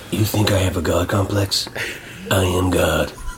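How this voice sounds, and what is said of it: Alec Baldwin impression. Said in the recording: “your Alec Baldwin impersonation”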